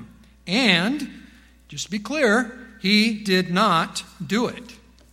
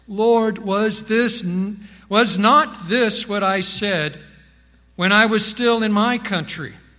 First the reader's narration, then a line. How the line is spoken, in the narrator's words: probably in a lamentful voice